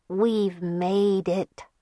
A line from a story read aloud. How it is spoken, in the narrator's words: murmured